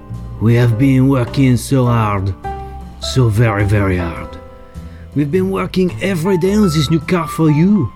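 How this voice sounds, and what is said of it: Exaggerated fake French accent. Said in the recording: “my ridiculous French accent”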